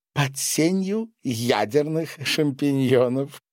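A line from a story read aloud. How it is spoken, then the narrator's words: Interjecting. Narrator (Russian): вставила Маша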